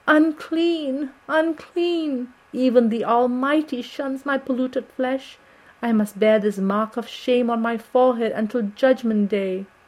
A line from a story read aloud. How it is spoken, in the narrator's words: she wailed out